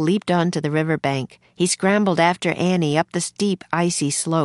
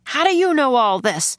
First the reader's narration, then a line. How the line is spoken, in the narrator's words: the major shouted above the storm